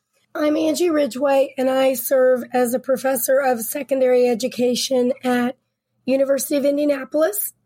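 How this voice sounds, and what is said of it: Sick, cold-affected voice. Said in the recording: “Sorry about my voice. I've had a cold”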